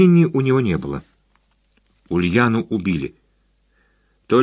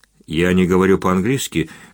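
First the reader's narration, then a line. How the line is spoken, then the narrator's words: Muffled, flat. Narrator (Russian): глухо произнес Сергей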